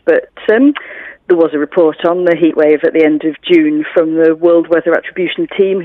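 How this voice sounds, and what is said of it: British accent. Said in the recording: “I can hear from your accent that you, like me, hail from the United Kingdom”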